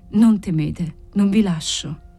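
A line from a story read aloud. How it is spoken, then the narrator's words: Murmur, suppressing emotion. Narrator (Italian): mormorò lui, cercando di vincere la sua emozione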